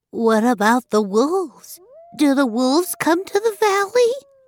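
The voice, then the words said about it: Frightened child's voice. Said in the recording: “in a frightened voice”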